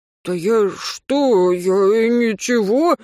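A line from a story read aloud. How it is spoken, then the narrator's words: Evasive, wheedling drunk. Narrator (Russian): заюлил алкаш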